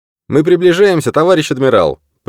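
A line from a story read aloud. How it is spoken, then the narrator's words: Shout. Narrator (Russian): прокричал водитель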